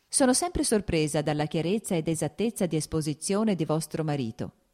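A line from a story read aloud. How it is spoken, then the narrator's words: Plain. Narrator (Italian): disse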